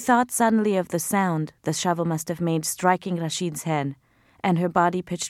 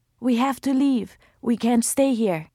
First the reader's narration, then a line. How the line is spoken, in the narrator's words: Layla said in a broken, husky voice